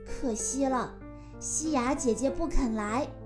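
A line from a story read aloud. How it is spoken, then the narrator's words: Sighing. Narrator (Chinese): 海星感叹道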